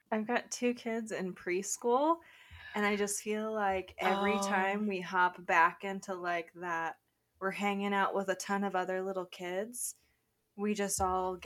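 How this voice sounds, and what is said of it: Raspy voice. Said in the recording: “I'm not going for raspy, but apparently that's what came out ... A little bit on the verge of a cold”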